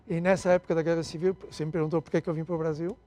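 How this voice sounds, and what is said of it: European Portuguese accent. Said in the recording (Portuguese): “eu nasci em Portugal, está claro pelo sotaque”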